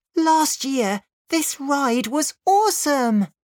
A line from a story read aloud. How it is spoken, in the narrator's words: she cried